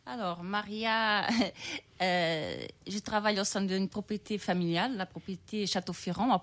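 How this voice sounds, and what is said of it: Slight Brazilian-Portuguese accent in French. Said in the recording (French): “Il y a un petit accent, vous venez d'où ... je suis née au Brésil, j'ai grandi au Portugal”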